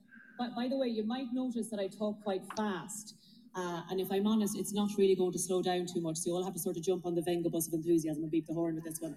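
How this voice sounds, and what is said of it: Irish accent, fast speech. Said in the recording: “She's got a beautiful accent. ... I love her voice. ... The women have a sexy voice with the Irish accent.”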